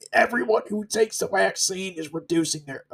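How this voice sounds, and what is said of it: Poor Bill Gates impression. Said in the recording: “my Bill Gates impersonation ... I clearly don't ... really cringe moment”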